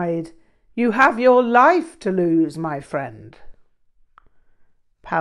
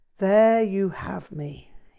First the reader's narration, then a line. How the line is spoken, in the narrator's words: he sighed